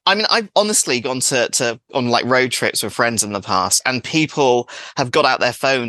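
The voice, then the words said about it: English accent. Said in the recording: “my accent ... an English person”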